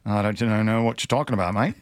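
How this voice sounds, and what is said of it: Put-on Australian accent, fairly decent. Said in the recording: “I'm going to have to work on my Australian accent. ... It wasn't too bad.”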